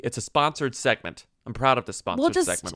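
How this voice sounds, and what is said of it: Loud, emphatic delivery. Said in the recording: “I'm going to say this loudly.”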